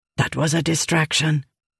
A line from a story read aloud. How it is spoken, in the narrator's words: Kord whispered to Rissen